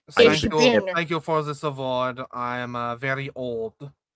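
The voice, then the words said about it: Put-on German accent, poorly done. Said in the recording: “I can't do a German accent at all.”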